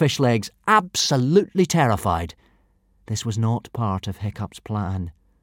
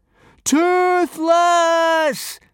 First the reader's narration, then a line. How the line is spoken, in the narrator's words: screamed Hiccup